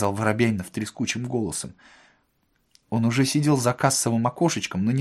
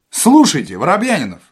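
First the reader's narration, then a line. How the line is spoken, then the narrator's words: Shouted. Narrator (Russian): закричал Остап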